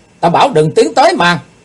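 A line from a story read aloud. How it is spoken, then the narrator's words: Loud shout, swordsman. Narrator (Vietnamese): Kiếm khách quát to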